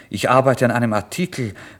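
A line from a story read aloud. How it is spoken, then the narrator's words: Plain. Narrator (German): sagte ich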